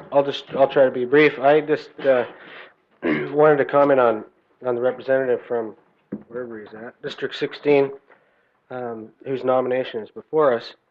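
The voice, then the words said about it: Sore, strained voice. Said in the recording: “I've been fighting a bad cold, so my voice is a little bit sore”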